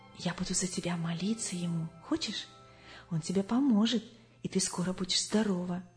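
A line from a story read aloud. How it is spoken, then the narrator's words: Trusting whisper into ear. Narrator (Russian): А подружка доверчиво шептала ей в самое ухо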